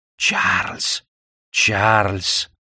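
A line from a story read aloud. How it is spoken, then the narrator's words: Hissing whisper. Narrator (Russian): свистящий шепот мисс Хэбершем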